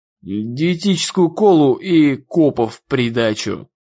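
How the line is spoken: Plain. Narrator (Russian): ответила Нелли

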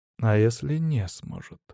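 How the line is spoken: Quiet, calm. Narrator (Russian): Тихо, даже спокойно произнес я

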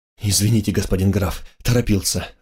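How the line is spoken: Breathless exhale. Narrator (Russian): выдохнул

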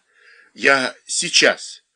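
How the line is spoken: Wheeze. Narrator (Russian): просипел он

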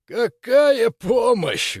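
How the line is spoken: Bitter laugh. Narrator (Russian): горько рассмеялся Нильс

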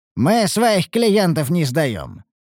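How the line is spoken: Smirking snort. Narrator (Russian): хмыкнул Ругар

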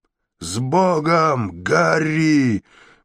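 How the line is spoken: Roar. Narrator (Russian): проревел Райнальд

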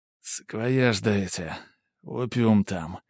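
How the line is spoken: Weak rasp. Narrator (Russian): слабо прохрипел

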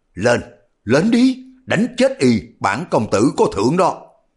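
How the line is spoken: Fearless loud call. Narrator (Vietnamese): y cũng không có tỏ ra sợ hãi, ngược lại lớn tiếng kêu gọi Ác Nô

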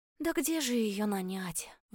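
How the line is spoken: Sigh. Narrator (Russian): вздохнула я

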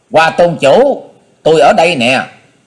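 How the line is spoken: Loud voice. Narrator (Vietnamese): hắn lập tức lớn tiếng nói

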